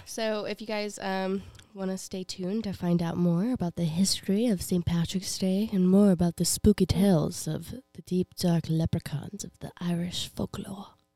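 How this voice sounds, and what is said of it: Hoarse, strained, tired voice. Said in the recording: “I am slowly losing my voice ... Also, I'm really tired.”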